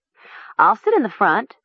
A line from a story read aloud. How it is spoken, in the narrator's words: Nessa said eagerly